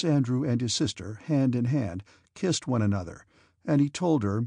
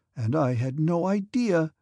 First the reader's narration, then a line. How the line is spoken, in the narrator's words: exclaimed Princess Mary